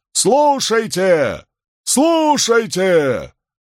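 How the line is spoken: Herald's full-lunged yell. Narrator (Russian): глашатай и, набрав в легкие побольше воздуха, завопил

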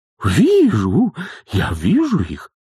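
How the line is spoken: Exclaimed. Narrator (Russian): воскликнула госпожа Услада

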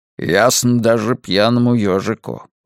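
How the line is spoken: Muttering. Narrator (Russian): бормочет падла

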